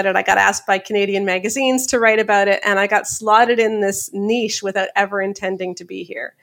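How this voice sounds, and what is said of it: Canadian accent. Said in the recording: “And I'm in Canada. That's why my accent's funny.”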